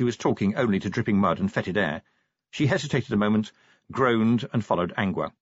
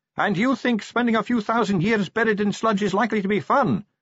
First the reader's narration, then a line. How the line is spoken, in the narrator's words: shouted Sally